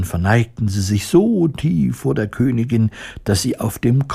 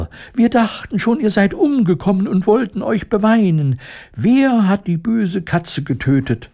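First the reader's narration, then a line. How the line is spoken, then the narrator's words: Overlapping squeaky voices. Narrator (German): piepsten sie durcheinander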